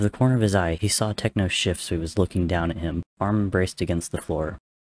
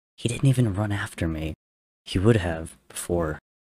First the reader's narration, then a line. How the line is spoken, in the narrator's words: Tommy whispered